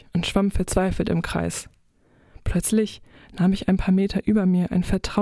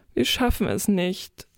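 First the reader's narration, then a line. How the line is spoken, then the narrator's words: Sad. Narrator (German): sagte Silvia traurig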